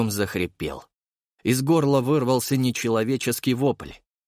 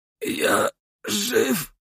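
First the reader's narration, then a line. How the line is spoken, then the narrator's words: Hoarse rasp. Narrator (Russian): прохрипел он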